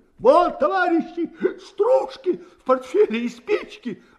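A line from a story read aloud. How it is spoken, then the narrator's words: Desperate breathless shouting. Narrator (Russian): отчаянно кричал солдат, кашляя и стараясь отдышаться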